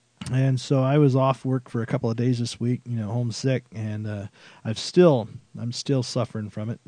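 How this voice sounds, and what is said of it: Nasal, congested voice. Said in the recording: “my voice was on its way out... I'm still sounding a little bit nasally, but it is getting better”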